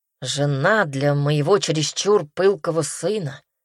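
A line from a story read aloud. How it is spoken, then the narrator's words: Grumbling. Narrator (Russian): проворчал Джонс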